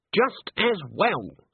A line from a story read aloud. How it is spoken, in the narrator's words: said Granny, smiling triumphantly